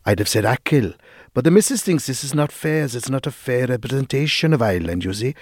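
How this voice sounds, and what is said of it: Good put-on Welsh accent. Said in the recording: “That's a really good Welsh accent, man. ... It's even how you said the... ... sort of sounded like juicy.”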